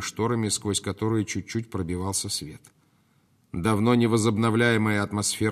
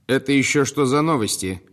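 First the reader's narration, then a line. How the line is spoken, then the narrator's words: Snapped. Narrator (Russian): огрызнулась последняя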